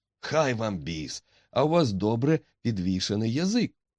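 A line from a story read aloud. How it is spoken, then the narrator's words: Uncertain exclamation, tavern keeper. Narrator (Ukrainian): вигукнув хазяїн пивниці, непевний, чи новий відвідувач жартує, чи справді захоплений ним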